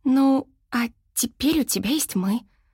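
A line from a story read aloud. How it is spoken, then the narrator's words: Soft, gentle. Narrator (Russian): мягко сказала Шэрон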